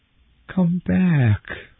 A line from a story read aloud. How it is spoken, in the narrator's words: Eloise begged